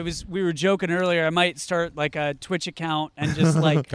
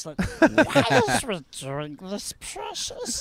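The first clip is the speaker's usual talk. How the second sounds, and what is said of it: Poor Gollum-style creature voice. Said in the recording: “in Smeagol voice ... That's a really bad impression ... That sounded actually like Bilbo Baggins impersonating Gollum ... that did not sound like Gollum or Smeagol”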